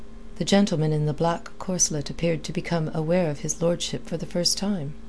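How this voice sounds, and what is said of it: Usual voice. Nothing is said of it.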